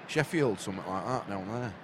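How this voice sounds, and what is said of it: Put-on Northern English Yorkshire accent. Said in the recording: “Why have you started talking a Lancashire accent? ... This will be Yorkshire.”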